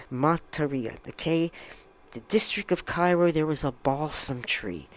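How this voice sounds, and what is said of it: English accent. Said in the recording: “I'm saying these names with my English accent. I guess you could tell.”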